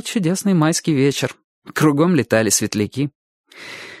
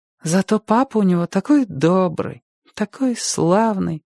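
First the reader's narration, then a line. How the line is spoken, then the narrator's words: Sighing. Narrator (Russian): вздохнула Ника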